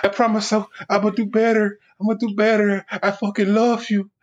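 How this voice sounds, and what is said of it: Crying voice with imitated accent. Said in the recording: “he got a little accent.”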